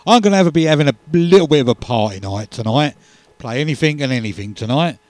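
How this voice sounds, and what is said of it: Croaky voice. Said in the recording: “Got a bit of a croaky voice. ... I've got a little bit of a cold coming”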